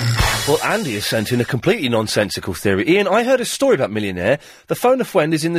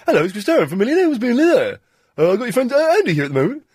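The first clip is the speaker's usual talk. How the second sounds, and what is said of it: Imitates another person's voice. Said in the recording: “It wasn't a bad impression of Millionaire, of Chris Tarrant's.”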